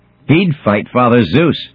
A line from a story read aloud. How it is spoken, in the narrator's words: screams the goddess